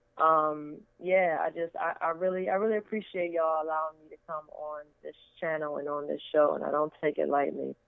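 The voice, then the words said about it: Low, tired voice. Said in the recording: “my voice is getting low, it's because it's my bedtime”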